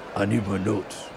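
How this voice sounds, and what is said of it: Deep beastly imitation voice. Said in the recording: “I don't sound anything like that. That was like a Yeti or something ... It's like a Shaquille O'Neal impersonation ... That was a good beast”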